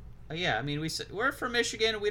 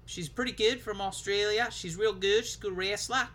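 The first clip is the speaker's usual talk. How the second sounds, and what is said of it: Put-on Australian accent. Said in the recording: “I don't know who you're doing an impression of right now ... if you're going down under, you got to go a little bit lower to be Rhea ... an Australian accent”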